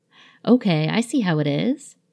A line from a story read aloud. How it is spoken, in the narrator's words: Ed replied, eyes narrowed playfully